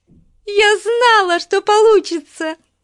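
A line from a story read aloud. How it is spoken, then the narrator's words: Squealing. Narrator (Russian): завизжала Бетси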